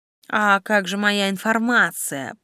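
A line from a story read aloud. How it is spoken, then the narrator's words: Stunned creaky voice. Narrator (Russian): проскрипел ошарашенной скоростью происходящего Флавиус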